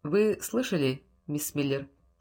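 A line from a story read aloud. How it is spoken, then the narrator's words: Quiet question. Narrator (Russian): тихо спросил Андерс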